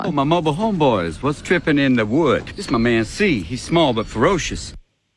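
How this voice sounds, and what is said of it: Put-on New York-style accent. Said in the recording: “doing a potential Snoop Dogg impression ... It's not their normal accent ... putting on sort of a New York accent”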